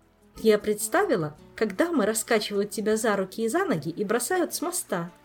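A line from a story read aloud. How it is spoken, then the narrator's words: Explained while giggling. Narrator (Russian): продолжая хихикать, пояснила Кира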